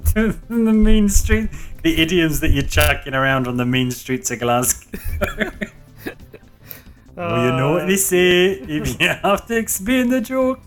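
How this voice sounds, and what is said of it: Put-on Scottish accent. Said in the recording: “Stop doing that Scottish accent, man.”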